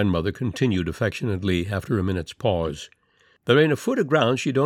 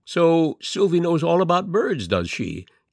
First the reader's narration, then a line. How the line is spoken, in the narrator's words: he exclaimed